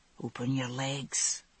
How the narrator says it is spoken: he whispered

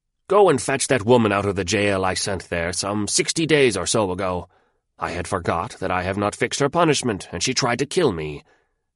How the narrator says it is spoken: he shouted to the guard at his door

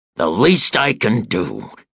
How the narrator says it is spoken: he bellowed

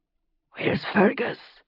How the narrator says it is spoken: Roger asked, his voice rasping

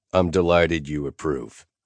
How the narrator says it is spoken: I said dryly

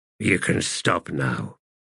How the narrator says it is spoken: the wizard muttered

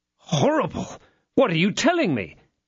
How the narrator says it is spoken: cried D'Artagnan

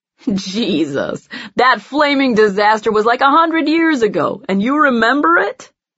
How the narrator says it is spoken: John laughs

